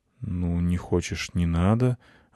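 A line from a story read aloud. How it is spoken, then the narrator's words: Confused reply. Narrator (Russian): ответил я растерянно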